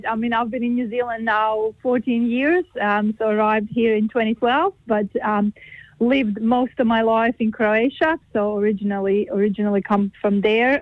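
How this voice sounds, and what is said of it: Croatian accent with slight Kiwi tinge. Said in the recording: “I notice there's an accent there as well... Yeah, there is an accent. You can't hide that... accents will just stay forever, I guess. I have a bit of a kind of a Kiwi accent”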